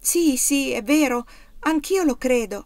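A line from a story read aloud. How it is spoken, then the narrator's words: Exclaimed. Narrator (Italian): esclamò Erika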